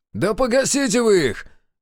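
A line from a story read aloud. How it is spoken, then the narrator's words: Shout. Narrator (Russian): крикнул Славик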